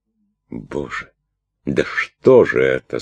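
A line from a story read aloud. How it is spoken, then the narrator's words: Horrified, asking herself. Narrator (Russian): с ужасом спрашивала она себя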